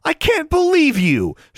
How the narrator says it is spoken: she exclaimed

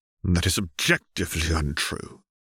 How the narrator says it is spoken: Caitlin said through her teeth

